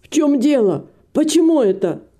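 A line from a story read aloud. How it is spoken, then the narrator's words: Shouting. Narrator (Russian): закричал хозяин гостиницы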